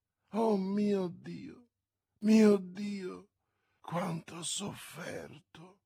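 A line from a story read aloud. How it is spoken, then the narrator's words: Harmonious seductive murmur. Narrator (Italian): mormorò Milady con la sua voce armoniosa che, simile a quella delle sirene antiche, affascinava tutti coloro di cui voleva la rovina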